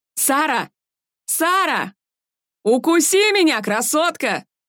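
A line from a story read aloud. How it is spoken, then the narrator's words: Shouted from a crowd. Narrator (Russian): крикнули из толпы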